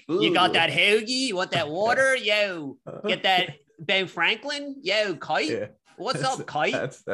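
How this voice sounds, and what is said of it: Exaggerated Philly accent. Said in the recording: “I hear a strong Philly accent”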